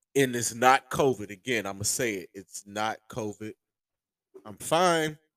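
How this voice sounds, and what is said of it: Hoarse, strained voice. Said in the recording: “My voice is just killing me right now. My throat is sore. I'm coughing. ... I just got a sore throat”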